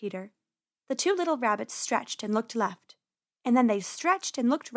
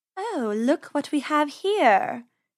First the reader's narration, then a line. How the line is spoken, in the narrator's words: she purred